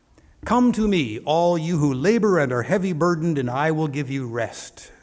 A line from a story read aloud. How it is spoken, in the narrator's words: said Jesus